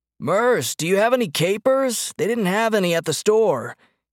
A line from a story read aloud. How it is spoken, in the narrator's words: he bellowed